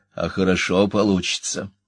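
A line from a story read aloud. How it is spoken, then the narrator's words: Soft question. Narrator (Russian): мягко спросила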